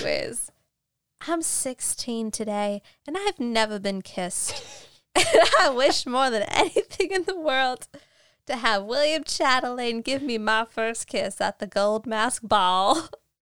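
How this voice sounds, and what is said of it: Inconsistent, poorly done fake accent. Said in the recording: “my like faux accent changes every time I speak. I can't do it. ... how notoriously bad at accents I am”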